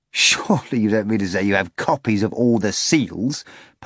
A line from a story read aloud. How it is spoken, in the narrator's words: Pilate asked, laughing